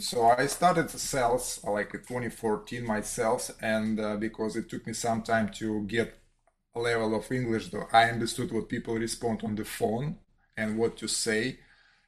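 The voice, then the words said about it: Non-native English accent. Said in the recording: “You hear my accent right now”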